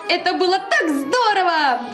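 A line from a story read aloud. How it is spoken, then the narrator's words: Cheerful shouting. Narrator (Russian): весело кричал Зайка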